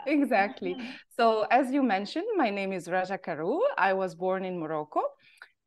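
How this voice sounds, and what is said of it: Moroccan accent with varying pitch. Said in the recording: “I go high or low in pitches, and that's my Moroccan accent taking over”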